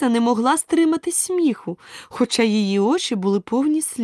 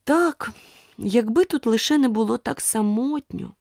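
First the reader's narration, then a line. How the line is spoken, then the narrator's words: Sad tearful sigh. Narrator (Ukrainian): журливо зітхнула, і дві великі сльозини скотилися їй по щоках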